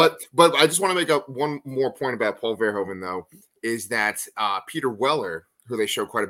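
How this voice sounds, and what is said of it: Usual voice. Nothing is said of it.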